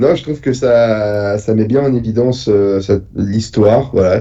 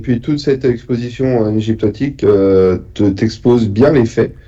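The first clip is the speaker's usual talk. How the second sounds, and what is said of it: Posh affected French accent. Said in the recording (French): “tu prends un accent prout, là ... Hein, très cher.”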